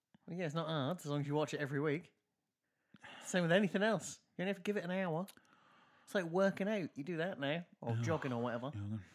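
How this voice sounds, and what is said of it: English accent. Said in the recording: “I fall really into my English accent when I'm chatting on mic.”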